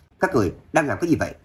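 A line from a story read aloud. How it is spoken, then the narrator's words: Frantic loud shout. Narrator (Vietnamese): Ninh Lâm khẩn trương quát lớn, giống như bị điên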